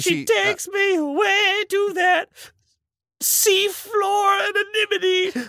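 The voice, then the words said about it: Singing in falsetto. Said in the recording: “I have to get into falsetto”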